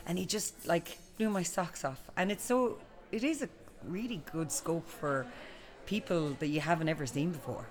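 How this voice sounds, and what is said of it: Irish accent, not Dublin. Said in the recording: “by the accent, you're not a dub”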